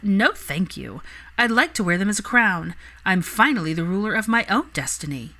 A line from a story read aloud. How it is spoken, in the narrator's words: Pansy had laughed and said